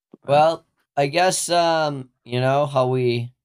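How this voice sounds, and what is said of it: Usual voice. Nothing is said of it.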